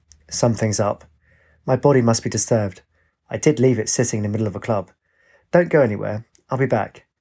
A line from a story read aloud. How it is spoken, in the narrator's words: She said calmly